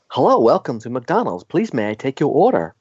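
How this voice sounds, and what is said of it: Put-on accent, praised as good. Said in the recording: “such a good accent.”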